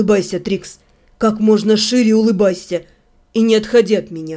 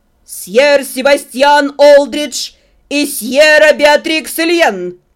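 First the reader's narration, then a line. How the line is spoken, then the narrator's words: Calm loud announcement. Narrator (Russian): Невозмутимо выкрикнул распорядитель бала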